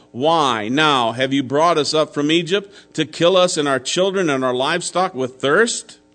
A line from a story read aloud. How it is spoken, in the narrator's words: they grumbled against Moses and said